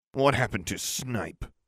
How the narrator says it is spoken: I growled

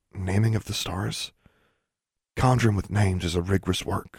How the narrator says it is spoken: Forbearance whispered

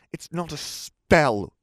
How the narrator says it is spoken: Ron spat

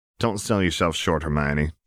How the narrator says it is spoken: chuckled Kellen

